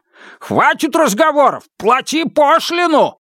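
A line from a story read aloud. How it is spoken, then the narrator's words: Screaming yell. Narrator (Russian): завопил он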